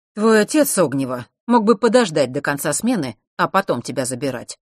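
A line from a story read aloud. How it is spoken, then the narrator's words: Displeased. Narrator (Russian): сказал он недовольным голосом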